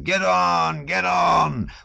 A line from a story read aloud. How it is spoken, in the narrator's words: those wild, tipsy shouts